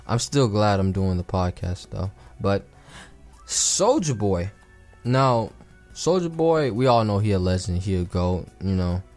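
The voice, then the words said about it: Raspy, rough-throated voice. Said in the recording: “my throat's been feeling raspy for a second.”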